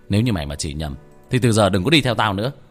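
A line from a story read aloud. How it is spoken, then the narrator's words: Annoyed shout. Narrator (Vietnamese): Tôi bực bội quát nó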